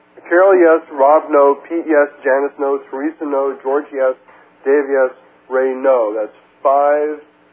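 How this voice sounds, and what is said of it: Reading a list very fast. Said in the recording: “read it so fast”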